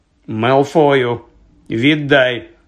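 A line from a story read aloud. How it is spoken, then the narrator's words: Stern command. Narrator (Ukrainian): суворо звелів Персі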